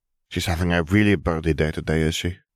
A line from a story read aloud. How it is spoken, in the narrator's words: Gabby sighed